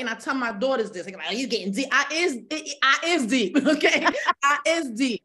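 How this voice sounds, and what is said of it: Slang-heavy street dialect. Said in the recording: “I speak slang at the same time... your dialect... I'm speaking hood”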